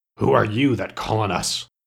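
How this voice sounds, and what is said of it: Gruff character voice. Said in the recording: “in a gruff voice”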